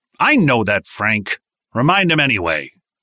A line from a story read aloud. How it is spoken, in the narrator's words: Williams normally had a calm demeanor, but he barked